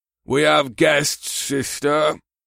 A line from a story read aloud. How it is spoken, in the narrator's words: Zuag rumbled